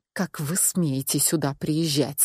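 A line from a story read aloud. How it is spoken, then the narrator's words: Hissed through teeth. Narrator (Russian): сквозь зубы прошипела я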